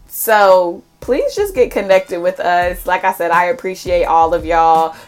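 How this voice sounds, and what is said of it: Strained, unusual-sounding voice. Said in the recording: “I'm sorry for how crazy my voice sounds.”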